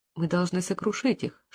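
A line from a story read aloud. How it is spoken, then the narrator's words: Whisper. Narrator (Russian): шепнула Дейзи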